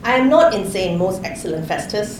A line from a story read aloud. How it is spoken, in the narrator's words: Paul replied